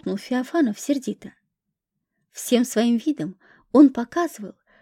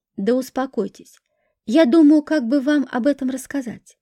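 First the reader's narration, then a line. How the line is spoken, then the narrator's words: Nervous shout. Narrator (Russian): нервно закричал он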